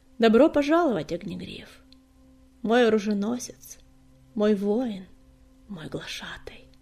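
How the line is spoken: Solemn greeting. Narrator (Russian): Торжественно приветствовала его синяя звезда

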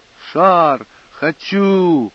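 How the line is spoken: Child shouting. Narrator (Russian): Сын закричал

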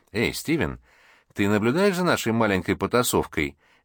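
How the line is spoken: Cheerful question. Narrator (Russian): весело спросил Гарри

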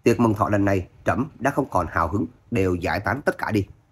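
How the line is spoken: Cold, scornful huff. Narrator (Vietnamese): hoàng đế vung tay lên hừ nói

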